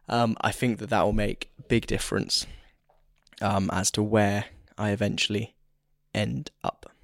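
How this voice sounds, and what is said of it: Strained, failing voice. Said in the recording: “my voice is going, can you tell? ... just to avoid my voice going altogether”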